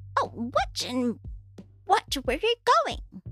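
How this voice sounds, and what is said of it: Unconvincing crazy old lady voice. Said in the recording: “in a crazy old lady voice ... That was not an old lady at all.”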